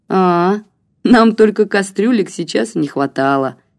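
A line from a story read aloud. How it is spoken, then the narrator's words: Carefree laugh. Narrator (Russian): беспечно рассмеялась Марина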